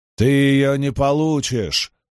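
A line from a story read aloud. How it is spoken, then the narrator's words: Growled. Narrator (Russian): прорычал Ранд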